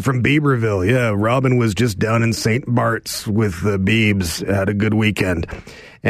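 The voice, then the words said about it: Imitates another person's voice. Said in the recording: “my Alan Thicke impersonation ... It was spot on. ... It was an amazing impersonation”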